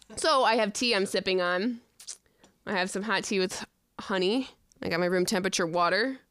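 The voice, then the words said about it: Voice affected by a cold. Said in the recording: “I'm a little under the weather. I have a little bit of a cold.”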